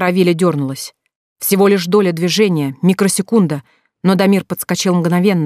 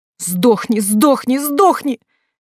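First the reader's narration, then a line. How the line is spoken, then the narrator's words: Frenzied shriek. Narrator (Russian): визжала она, как одержимая злыми духами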